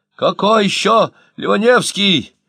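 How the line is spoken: Shouting. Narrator (Russian): закричал Ложкин

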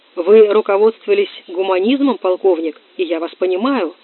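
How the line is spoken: Sanctimonious mumble. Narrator (Russian): ханжески промямлил Горбой

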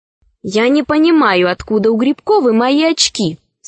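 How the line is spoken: Firm, confident student voice. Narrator (Russian): сказала Розочка твердым голосом отличника

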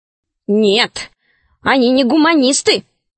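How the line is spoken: Grumbling. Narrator (Russian): ворчал Веня

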